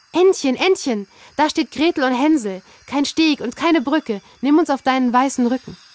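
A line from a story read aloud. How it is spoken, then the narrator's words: Calling out. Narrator (German): rief sie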